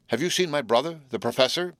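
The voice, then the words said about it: Trembling, anxious voice. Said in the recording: “he demanded in a trembling voice.”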